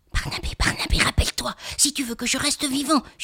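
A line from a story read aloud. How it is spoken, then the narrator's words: Whispered into child's ear. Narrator (French): chuchote Mitch à l'oreille du petit garçon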